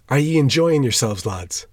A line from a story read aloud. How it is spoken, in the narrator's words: cried